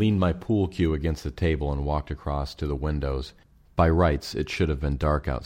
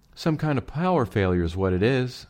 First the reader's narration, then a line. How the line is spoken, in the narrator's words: Estelle announced, her voice sounding even higher and squeakier than usual, and not at all reassuring